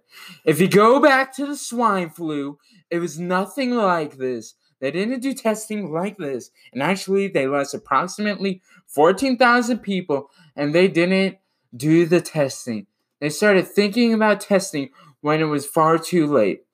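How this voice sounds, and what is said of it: Imitates another person's voice. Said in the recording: “I'll do my Trump impression for it.”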